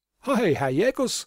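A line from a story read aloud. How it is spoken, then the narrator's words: Laughing call. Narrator (German): rief er und lachte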